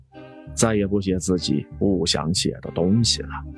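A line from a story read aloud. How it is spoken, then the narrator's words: Sighing wistfully. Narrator (Chinese): 她感叹说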